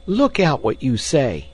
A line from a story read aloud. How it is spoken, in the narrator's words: squeaked